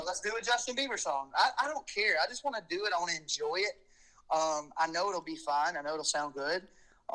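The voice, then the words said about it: Alabama Southern accent. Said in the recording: “I'm from Alabama and I can't get rid of this accent.”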